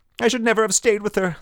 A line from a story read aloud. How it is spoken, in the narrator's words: the woman's voice cried